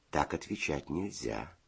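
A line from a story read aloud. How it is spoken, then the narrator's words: Gentle explaining. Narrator (Russian): ласково объяснил Федя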